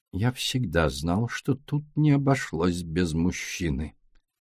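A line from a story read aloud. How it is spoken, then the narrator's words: Muttered. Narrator (Russian): пробормотал Эркюль Пуаро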